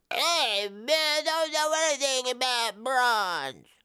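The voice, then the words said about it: Impression of a dim-witted character. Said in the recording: “here's my impression of Wambo the Dumb”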